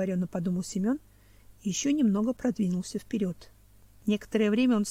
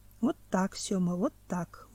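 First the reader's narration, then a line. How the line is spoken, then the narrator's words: Calm inner thought. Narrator (Russian): уже спокойно думал некто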